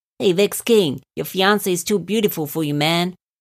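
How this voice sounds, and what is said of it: Put-on accent. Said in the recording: “I don't know why I put on that accent”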